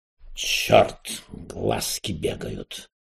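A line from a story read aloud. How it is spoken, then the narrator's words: Muttered. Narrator (Russian): пробормотал Рас Петрович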